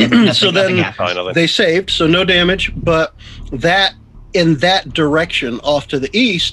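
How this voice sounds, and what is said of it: Usual voice. Nothing is said of it.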